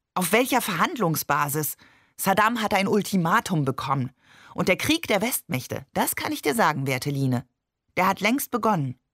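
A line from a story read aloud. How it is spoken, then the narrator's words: Energetic. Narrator (German): sagte energisch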